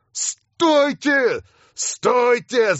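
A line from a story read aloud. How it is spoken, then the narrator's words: Yelling. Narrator (Russian): завопил я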